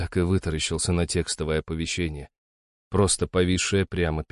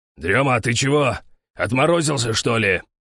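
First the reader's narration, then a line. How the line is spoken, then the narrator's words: Sharp bark. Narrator (Russian): рявкнул на меня старший оператор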